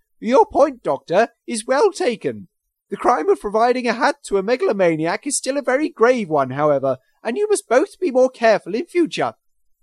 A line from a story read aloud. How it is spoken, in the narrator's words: began in his wavery tones